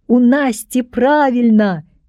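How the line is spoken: Whole class shouting. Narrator (Belarusian): крычаў увесь клас

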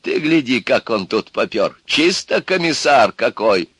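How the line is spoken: Laughing old man. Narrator (Russian): Старик засмеялся

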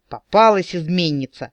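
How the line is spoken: Triumphant exclamation. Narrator (Russian): воскликнул капитан победно

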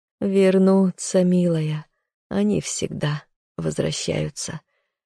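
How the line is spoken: Hoarse mutter. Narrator (Russian): хрипло пробормотала она

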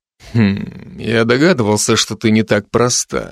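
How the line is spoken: Mumbling. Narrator (Russian): пробормотал Райзен

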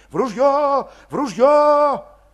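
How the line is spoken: Ringing frightened shout. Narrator (Russian): Кто-то заливисто испуганно кричал

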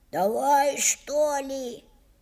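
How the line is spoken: Rude, coarse tone. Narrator (Russian): грубо сказал Алёшка

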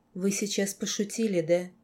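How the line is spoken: Smiling breathy. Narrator (Russian): Лорд широко улыбнулся, выдохнул

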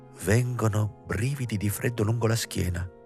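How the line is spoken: Murmured amid silence. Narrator (Italian): mormorò la Motz in mezzo a rispettoso silenzio

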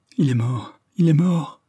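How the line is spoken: Stammering. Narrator (French): bégaya à la fin Michel

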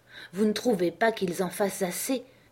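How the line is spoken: Asked in lower voice. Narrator (French): demandai-je d'une voix plus basse

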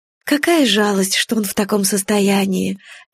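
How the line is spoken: Sighed. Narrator (Russian): Эвелин вздохнула

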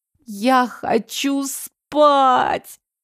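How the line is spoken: Moaning. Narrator (Russian): простонала

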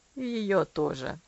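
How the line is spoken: Quiet sad muttering to self. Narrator (Russian): пробормотал Травилла тихо и печально, больше думая вслух, нежели отвечая своему другу

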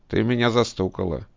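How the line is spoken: Plain. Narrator (Russian): говорит он

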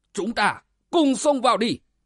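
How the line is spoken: Hurried loud shout. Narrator (Vietnamese): Thất xảo yêu hồ sợ lão một mình suy thế, bèn vội quát lớn

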